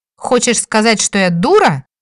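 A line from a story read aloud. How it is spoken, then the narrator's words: Indignant princess exclaiming. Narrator (Russian): воскликнула принцесса и тут же сама возмутилась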